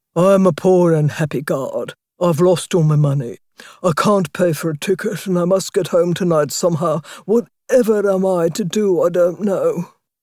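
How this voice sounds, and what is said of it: Deep put-on character voice. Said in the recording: “in her deepest voice”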